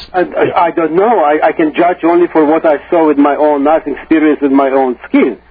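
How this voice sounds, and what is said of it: Russian accent. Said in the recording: “you sound like somebody who might have some experience, just based on your accent ... I'm originally from Russia”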